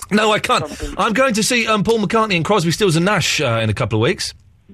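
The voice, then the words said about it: Croaky, hoarse voice. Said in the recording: “I've got a frog in my throat.”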